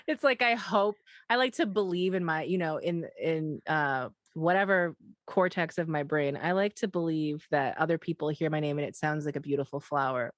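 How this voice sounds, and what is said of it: Midwestern American accent. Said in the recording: “when I say it out loud, this Midwest accent”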